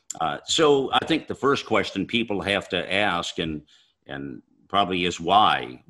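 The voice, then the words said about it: Great radio voice. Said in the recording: “You got a great voice, man. That's a radio voice if I ever heard a radio voice.”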